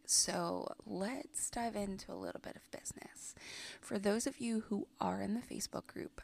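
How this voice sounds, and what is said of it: Sick, hoarse voice. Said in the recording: “as you can tell from my voice, I have been a little sick.”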